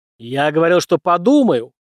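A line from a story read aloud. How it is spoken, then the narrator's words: Barked. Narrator (Russian): рявкнул Алексей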